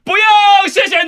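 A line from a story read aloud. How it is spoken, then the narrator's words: Sudden shout. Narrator (Chinese): 立刻大喊说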